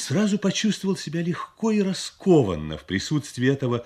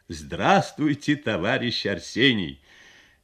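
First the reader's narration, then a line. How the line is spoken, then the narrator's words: Good-natured laughing. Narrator (Russian): Ленин добродушно смеялся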